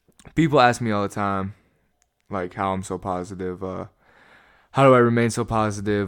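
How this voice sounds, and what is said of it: Sick, rough-sounding voice. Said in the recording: “my voice sounds a little whack this week, because I'm sick as shit. So if I don't sound very good”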